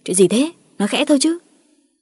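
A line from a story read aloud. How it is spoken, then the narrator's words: Irritated snapping. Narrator (Vietnamese): Cả Ngọc và Quyết gắt lên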